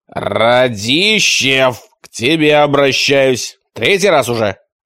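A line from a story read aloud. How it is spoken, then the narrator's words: Barking. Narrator (Russian): рявкнул отец Гордоний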